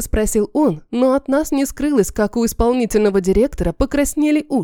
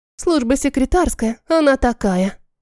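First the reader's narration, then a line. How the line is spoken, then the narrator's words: Sigh. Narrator (Russian): вздохнула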